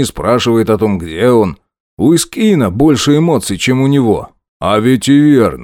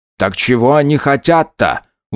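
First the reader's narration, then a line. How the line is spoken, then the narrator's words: Plain question. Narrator (Russian): вновь спросил он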